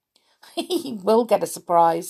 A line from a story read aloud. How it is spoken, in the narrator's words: said Rick with a giggle